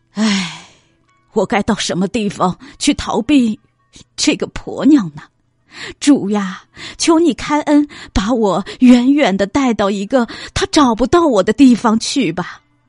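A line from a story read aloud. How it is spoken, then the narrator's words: Sighing, muttering to himself. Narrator (Chinese): 唉声叹气，自言自语的说道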